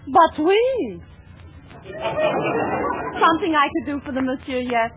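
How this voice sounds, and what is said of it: Peculiar fake French accent. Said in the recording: “You have the most peculiar accent. ... What part of France are you from?”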